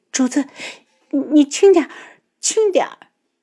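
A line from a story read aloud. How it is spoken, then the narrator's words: Anxious pleading. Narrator (Chinese): 他啊的一声，担忧地哀求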